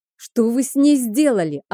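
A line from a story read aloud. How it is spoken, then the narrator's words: Yelling. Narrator (Russian): орала я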